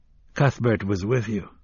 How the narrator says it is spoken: his father said

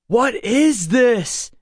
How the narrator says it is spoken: I said, shouting to be heard above the wind's howl

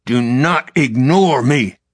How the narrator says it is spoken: his father growled

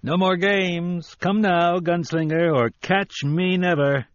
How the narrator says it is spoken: Booming, racketing

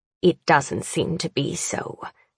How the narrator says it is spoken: she hisses

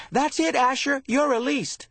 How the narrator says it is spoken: had shouted at his best friend

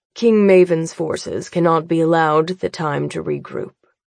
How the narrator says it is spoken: Father says coolly

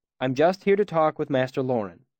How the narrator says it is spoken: I said quickly

